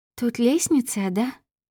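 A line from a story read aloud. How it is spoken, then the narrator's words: Timid question, girl. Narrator (Russian): робко спросила девушка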